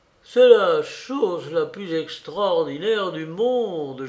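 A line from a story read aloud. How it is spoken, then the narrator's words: Moaning. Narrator (French): gémissait-il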